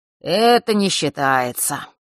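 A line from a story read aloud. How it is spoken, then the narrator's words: Lazy drowsy remark. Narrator (Russian): лениво заметил Фэш, не открывая глаз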